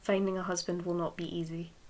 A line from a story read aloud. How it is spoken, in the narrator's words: Women heard to mutter